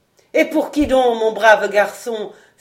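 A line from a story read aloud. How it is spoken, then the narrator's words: Bursting with laughter. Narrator (French): s'écria la pierre en éclatant de rire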